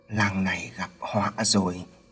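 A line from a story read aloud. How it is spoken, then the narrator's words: Muttering to himself. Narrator (Vietnamese): Lâu lâu, bác Hội lại lẩm bẩm nói một mình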